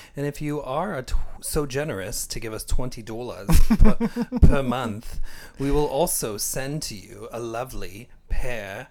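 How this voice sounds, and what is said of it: Ridiculous put-on German accent. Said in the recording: “practice your German ... accent. is that German? I didn't know what, what kind of ridiculous accent”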